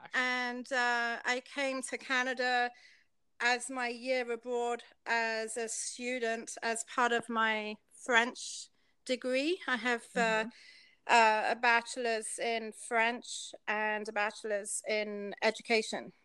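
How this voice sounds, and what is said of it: British southwest London accent. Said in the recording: “you are British ... Southwest London”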